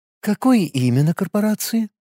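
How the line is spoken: Soft clarifying question. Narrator (Russian): мягко уточнила она

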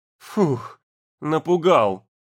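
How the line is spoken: Relieved exhale. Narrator (Russian): выдохнула Лена

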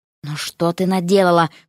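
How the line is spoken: Groaning. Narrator (Russian): простонал кто-то из путевиков

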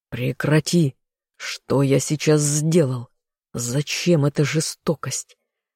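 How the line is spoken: Hoarse, through clenched teeth. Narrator (Russian): Стиснув зубы, прохрипел я

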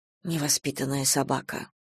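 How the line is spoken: Grumbled. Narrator (Russian): проворчала Надежда Николаевна

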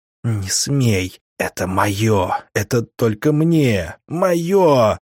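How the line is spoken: Hysterical wailing whisper. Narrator (Russian): завопил истеричный шепот у меня в голове

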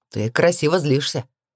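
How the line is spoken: Matter-of-fact snort. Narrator (Russian): хмыкнул он, будто пояснил очевиднейшую вещь в мире

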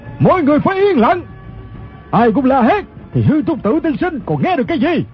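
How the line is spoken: Shouting. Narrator (Vietnamese): Người quát lên chính là thủ lãnh quần hào Ô Lão Đại

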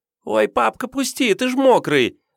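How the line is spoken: Squealing yell. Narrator (Russian): завопила Аленка

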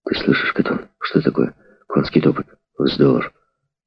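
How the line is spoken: Frightened. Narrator (Russian): мулат … испуганно произнес

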